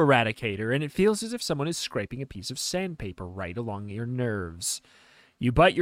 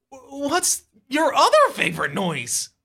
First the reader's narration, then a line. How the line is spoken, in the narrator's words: You stutter at last